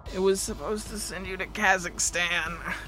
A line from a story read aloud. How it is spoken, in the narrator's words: I groaned